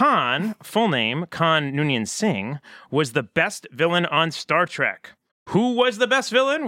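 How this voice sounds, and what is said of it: Usual voice. Nothing is said of it.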